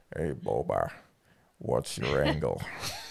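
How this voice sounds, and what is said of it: Impression of Cad Bane's voice. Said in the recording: “Cad Bane impersonator ... Not very good ... Hey, that's pretty good.”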